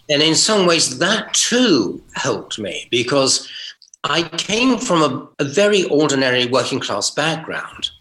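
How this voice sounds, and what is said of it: Received pronunciation English accent. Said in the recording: “It changed my accent considerably. And yes, it was RP, it was received pronunciation. I suppose that's what radio announcers were taught in the day.”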